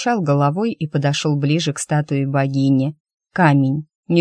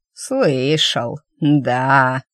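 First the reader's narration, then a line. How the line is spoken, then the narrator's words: Drawn-out, old man. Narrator (Russian): протянул старик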